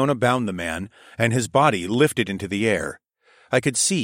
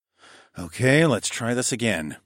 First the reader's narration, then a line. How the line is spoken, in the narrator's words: I muttered